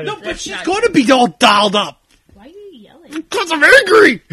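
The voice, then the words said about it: Angry yelling. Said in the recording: “you're yelling? ... Yes. ... Yelling.”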